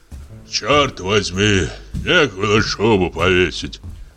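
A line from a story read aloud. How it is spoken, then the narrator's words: Hoarse bass voice. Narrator (Russian): хриплый бас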